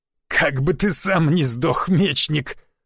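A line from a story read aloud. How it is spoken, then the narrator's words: Hoarse laugh. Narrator (Russian): хрипло засмеялся маг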